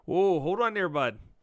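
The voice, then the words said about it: Exaggerated Canadian accent. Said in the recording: “you have to say that in the most Canadian accent you can”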